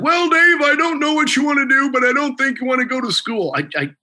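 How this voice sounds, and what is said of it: Imitates another person's voice. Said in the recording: “best Cecil Cutler impression you're ever going to hear”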